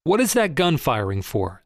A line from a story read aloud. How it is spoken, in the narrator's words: said Boxer